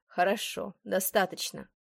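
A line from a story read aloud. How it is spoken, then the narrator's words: Dry remark. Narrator (Russian): сухо заметил Уильям Дорсет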